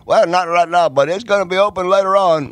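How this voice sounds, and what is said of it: Put-on accent imitating hotel staff. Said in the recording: “Now that accent that you just pulled out... Who is that?... hotel people?”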